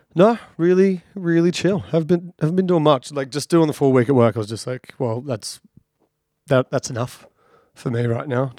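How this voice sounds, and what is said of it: Slightly raspy, tired voice. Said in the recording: “I'm a little bit tired, haven't had to talk this much. So excuse me if my voice is a little raspy.”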